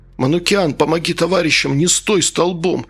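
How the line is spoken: Groaning. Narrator (Russian): застонал майор

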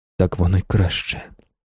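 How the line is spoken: Whispered. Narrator (Ukrainian): шепотів

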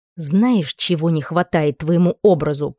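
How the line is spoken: Impatient growl. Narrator (Russian): прорычала, теряя терпение

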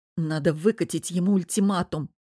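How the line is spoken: Grumbling. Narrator (Russian): проворчала Лиза

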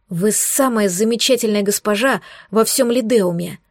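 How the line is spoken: Rapturous breathless exclamation. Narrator (Russian): восторженно выдохнул

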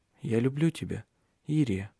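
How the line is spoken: Quiet. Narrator (Russian): тихо произнес он

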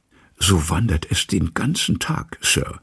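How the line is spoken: Whispered. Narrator (German): flüsterte Poole

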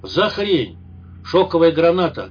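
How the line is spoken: Barked shout. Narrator (Russian): гаркнул Скай

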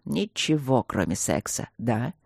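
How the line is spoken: Mocking mutter. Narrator (Russian): с насмешкой пробормотал барон

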